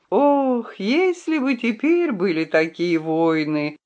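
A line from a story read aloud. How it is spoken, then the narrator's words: Sigh. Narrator (Russian): вздохнул он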